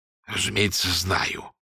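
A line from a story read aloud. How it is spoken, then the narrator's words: Forced out, reluctant. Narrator (Russian): выдавил он из себя наконец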